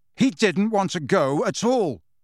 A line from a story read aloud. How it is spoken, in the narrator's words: said Harry angrily